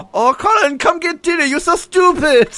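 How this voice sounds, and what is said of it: Asian-accented imitation of another person. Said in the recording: “Very Asian Rosie Perez there”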